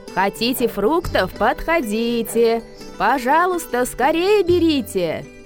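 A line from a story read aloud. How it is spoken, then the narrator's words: Woman shouting. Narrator (Russian): крикнула она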